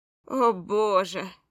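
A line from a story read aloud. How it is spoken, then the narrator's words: Groaned. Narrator (Russian): простонал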